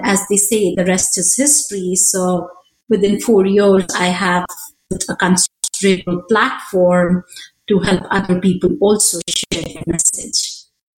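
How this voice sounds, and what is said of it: Indian accent. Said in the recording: “For those of you that can't tell from the accent, you were born in India.”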